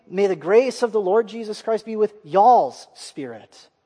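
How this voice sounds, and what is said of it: Put-on Southern US accent. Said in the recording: “If we were to give this a southern accent”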